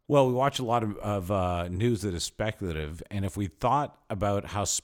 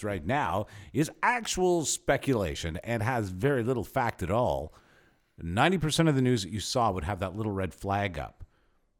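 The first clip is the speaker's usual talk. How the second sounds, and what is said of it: Mock newscaster voice. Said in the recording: “as a newscaster in this newscaster voice”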